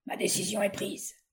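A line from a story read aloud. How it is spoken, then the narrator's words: Cold reply. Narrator (French): répliqua froidement William Dorgan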